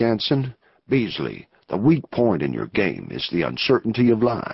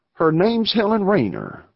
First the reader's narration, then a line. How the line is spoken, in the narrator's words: replied Beasley eagerly